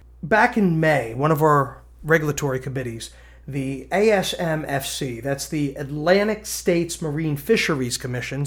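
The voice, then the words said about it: New Jersey accent. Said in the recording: “my Danny DeVito kind of sounding accent ... I'm from New Jersey”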